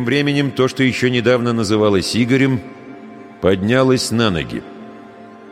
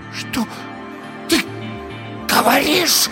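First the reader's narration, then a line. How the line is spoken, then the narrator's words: Hoarse frightening whisper. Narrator (Russian): Хриплый шепот Ирины был страшнее любого крика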